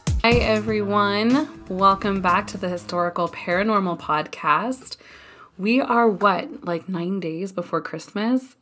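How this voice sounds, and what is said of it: Hoarse, ill-sounding voice. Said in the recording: “as you can tell from my voice, I am recovering from bronchitis”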